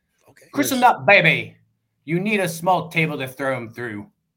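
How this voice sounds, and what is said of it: Weak put-on Scottish accent. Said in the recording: “I'll do my best Scottish accent ... That was pretty bad. But with Scotland, a little bit, maybe ... famous actor, Sean Connery”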